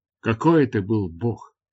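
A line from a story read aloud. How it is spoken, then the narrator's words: Whispered. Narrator (Russian): прошептал я Дартарусу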